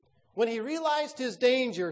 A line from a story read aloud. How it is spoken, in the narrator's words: he cried out